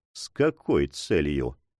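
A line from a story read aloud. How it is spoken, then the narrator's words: Quiet question. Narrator (Russian): тихо спросил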